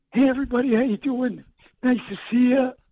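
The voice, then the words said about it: Impression of Bulky. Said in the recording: “did a full bulky impression.”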